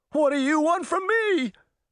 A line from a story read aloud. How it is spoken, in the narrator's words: Hatchet cried